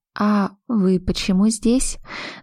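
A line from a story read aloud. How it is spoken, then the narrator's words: Almost a whisper. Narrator (Russian): добавила почти шепотом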